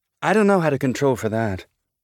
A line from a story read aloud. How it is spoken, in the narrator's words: Naomi said